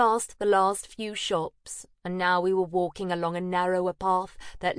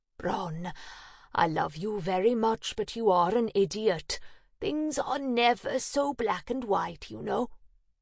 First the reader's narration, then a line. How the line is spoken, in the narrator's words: Maddie was exasperated with me too, just from the tone of her voice as she said